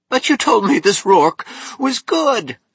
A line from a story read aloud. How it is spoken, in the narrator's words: Stoddard moaned in panic